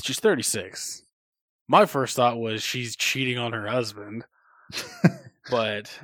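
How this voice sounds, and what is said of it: Usual voice. Nothing is said of it.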